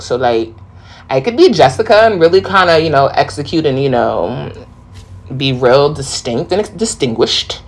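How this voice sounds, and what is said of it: New York accent. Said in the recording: “I know my accent sometimes could be heavy and thick ... sound so city like I'm from the Bronx ... just a New York type vibe”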